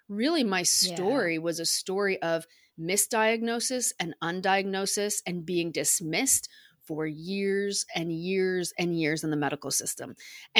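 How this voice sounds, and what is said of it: American accent. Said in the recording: “you can probably tell by my accent, I'm American.”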